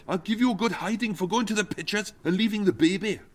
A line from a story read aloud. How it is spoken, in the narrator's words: Tim snapped